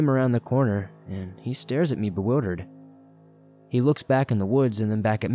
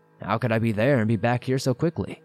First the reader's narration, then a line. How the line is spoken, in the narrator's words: replied